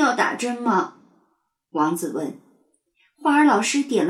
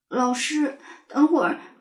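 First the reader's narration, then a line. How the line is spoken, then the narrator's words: Tearful voice. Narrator (Chinese): 王子开口了，他说话的时候声音还带着哭腔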